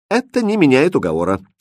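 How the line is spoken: Calm reply. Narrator (Russian): спокойно ответил Хрустальт

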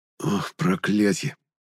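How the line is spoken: Whisper of sudden realization. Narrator (Russian): прошептал я, озаренный внезапной догадкой

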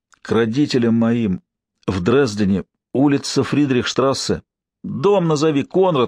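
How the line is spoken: Pleading. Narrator (Russian): взмолился Алексей

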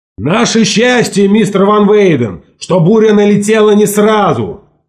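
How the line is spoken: Shout. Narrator (Russian): крикнул Ларсон

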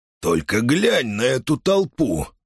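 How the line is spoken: Hissing. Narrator (Russian): прошипел он

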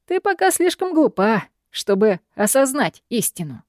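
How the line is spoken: Mocking. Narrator (Russian): произносит Алистер насмешливо

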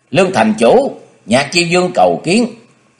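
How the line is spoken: Raised calling voice. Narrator (Vietnamese): Thủy Liên Ảnh dương giọng cao kêu lên

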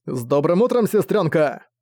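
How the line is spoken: Shouting right into ear. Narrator (Russian): крикнул прямо ей в ухо

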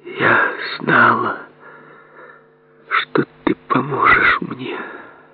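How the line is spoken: Whispered. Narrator (Russian): прошептала

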